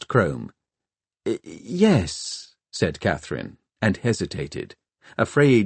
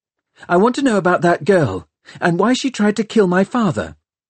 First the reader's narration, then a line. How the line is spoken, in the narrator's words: She blurted out